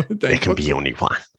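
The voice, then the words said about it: Christopher Lambert Highlander impression. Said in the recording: “The ... Lambert impression. So good.”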